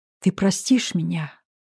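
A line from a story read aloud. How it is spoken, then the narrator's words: Whispering. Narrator (Russian): прошептал Русланов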